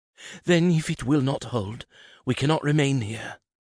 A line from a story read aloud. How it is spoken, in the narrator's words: said, her voice trembling